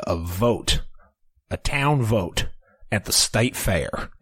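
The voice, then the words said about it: Put-on Southern US accent. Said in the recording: “I put on my southern accent ... you got to say state fair in a weird way”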